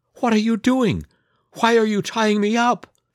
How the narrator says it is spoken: Snow White cried while trying to break free

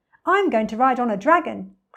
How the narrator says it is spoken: cried

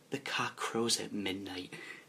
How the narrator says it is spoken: whisper in your ear

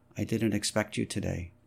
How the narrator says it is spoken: Beprith said in an expressionless voice

